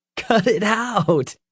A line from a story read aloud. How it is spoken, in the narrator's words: laughed